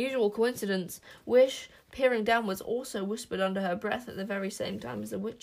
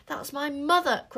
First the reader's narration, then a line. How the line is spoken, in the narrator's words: cried Wish